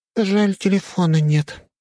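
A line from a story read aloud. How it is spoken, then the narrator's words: Sighing little girl. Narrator (Russian): вздохнула мелкая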